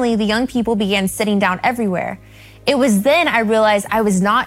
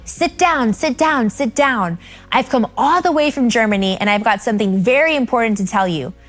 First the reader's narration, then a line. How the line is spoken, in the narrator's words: shouted